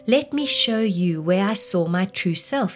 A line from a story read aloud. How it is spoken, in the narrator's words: he said